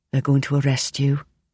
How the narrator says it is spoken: Kelly says in a low voice

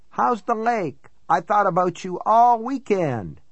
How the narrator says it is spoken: he cried

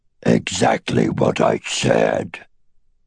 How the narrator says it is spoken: the dragon growled

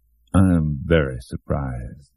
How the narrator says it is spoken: Shooter repeated in that heavy, even voice that now sounded like a hideous parody of calmness

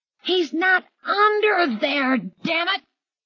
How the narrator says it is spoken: Hilly yelled

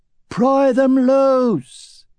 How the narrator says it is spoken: Roran cupped his hands around his mouth and shouted

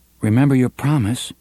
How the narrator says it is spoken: Alan said nervously

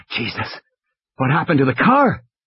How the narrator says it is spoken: Malcolm gasped

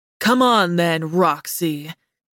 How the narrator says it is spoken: Darius growled, his breath warm against my neck as he leaned close

